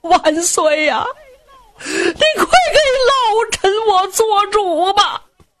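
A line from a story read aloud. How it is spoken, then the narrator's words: Crying. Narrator (Chinese): 宇文化及……冲着杨广就哭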